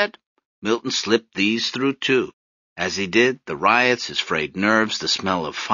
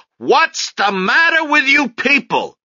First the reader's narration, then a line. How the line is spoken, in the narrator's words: shouting through the door